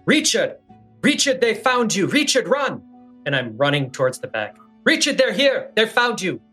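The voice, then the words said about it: Shouting urgently. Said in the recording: “I'm shouting”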